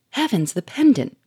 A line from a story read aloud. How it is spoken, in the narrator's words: cried Sonia, with parted lips and amazed eyes